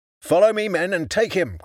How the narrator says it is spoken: cried Juniper

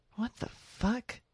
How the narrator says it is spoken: stammered

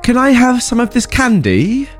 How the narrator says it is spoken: The nice kid asks very sweetly

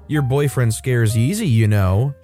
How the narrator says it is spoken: she laughed

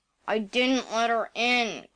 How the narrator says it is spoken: growled Mr

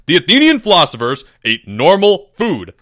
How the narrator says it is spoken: snapped Mr

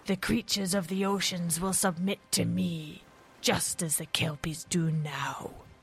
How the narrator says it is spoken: snarled the monster

